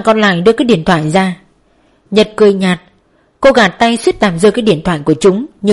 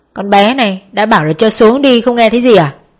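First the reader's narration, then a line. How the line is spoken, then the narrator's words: Shouting. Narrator (Vietnamese): Thằng bên cạnh hét lên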